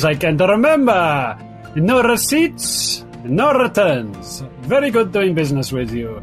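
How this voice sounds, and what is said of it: Put-on accent for a character. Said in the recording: “I really enjoy that accent.”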